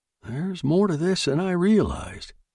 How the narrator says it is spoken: he murmured

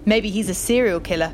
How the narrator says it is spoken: Brad had chuckled

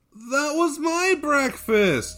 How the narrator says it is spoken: whined Kolya

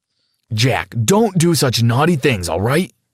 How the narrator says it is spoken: said Dad sternly

